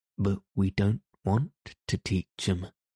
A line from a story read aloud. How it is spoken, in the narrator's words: replied the badger